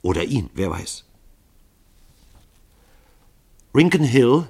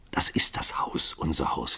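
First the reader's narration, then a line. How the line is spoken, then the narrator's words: Whisper. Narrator (German): flüsterte sie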